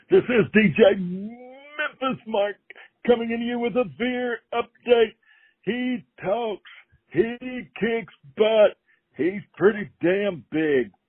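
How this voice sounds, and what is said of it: Imitates a DJ's voice. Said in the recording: “that was my best DJ Guzman imitation. ... before I screw it up any worse”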